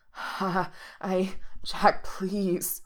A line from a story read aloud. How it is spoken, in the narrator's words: Reese groans